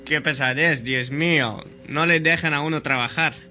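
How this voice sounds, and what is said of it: Angry, irritated voice. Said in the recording (Spanish): “con colérico acento”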